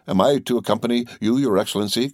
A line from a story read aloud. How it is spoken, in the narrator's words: cried Petruchio